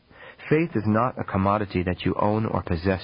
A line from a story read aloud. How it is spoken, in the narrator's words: she said